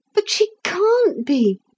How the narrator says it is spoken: said Philip desperately

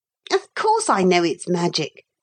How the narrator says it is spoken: said he impatiently

